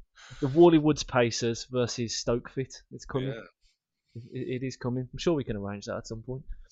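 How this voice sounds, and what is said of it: Strong regional accent. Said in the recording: “you can't understand what I'm saying because of my accent.”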